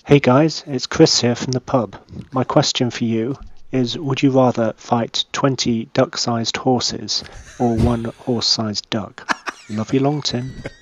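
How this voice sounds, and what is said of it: Speaks with a noticeable accent. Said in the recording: “That accent's great.”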